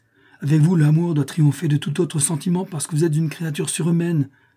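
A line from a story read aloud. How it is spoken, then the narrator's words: Exclamation. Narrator (French): s'écria Eugenius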